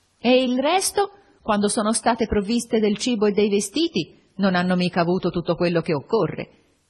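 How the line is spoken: Yelling. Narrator (Italian): Urlava

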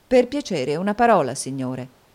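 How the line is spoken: Plain. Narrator (Italian): disse Nicola

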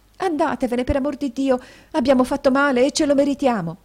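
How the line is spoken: Exclaimed, young woman. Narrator (Italian): esclamò la signorina

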